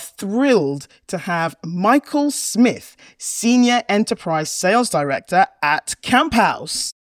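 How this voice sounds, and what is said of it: Posher voice, impression of a colleague. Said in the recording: “you sound much posher as a host ... Harriet impression”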